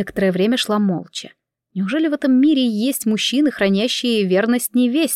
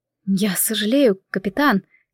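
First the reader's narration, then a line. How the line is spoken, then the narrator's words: Quiet. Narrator (Russian): тихо ответила я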